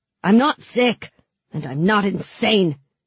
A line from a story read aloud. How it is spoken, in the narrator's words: she spat